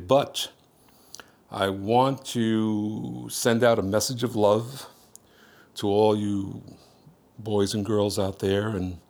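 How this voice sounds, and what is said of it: Strained, unwell-sounding voice. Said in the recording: “my voice isn't doing too well today”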